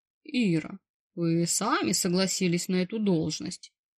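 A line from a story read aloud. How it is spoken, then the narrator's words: Dry interrupting reminder. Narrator (Russian): перебив сухим тоном, напомнил босс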